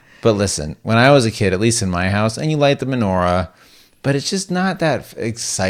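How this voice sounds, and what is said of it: Usual voice. Nothing is said of it.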